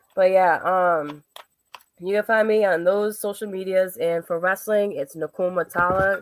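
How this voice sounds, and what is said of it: Hoarse, fading voice. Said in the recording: “I'm like losing my voice.”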